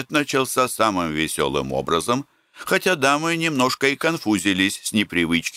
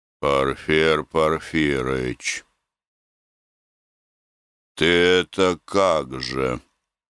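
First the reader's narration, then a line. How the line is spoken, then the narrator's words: Muffled question. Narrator (Russian): глухо спросил Гордей Евстратыч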